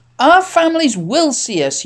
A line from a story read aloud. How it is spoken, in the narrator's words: shouted